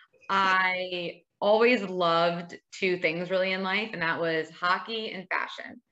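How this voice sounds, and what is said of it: Long Island New York accent. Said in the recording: “born and raised on Long Island, don't let the accent fool you.”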